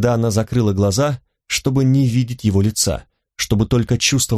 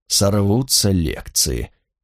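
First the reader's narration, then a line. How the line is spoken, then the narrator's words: Awed horrified whisper. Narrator (Russian): прошептал Эггерт в благоговейном ужасе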